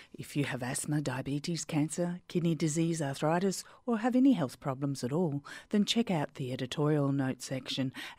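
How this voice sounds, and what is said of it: Australian accent. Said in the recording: “my Aussie accent ... my Aussie accent”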